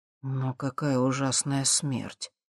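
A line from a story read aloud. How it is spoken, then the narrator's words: Murmured. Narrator (Russian): пробормотал Алексей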